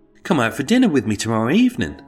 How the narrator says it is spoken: quickly piped up with

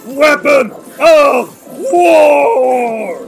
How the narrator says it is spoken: Everhunger shouts

